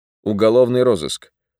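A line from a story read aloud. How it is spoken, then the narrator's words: Dull, listless reply. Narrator (Russian): тухлым голосом ответил капитан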